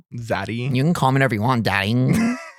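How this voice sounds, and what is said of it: Imitates another person's voice. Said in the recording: “Trisha Paytas ... is my impression pretty good? ... It's not bad.”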